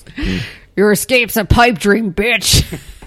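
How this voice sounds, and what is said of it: Menacing horror-villain character voice. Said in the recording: “do my Freddy voice.”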